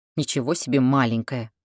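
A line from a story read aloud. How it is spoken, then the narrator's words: Grumbling. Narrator (Russian): ворчал Патрик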